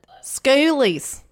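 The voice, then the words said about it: Good put-on Australian accent. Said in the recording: “can you do it in an Australian accent? ... Wow, you're quite good.”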